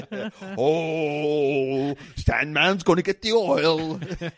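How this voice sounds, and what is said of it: Weird put-on voice. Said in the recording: “doing a weird voice”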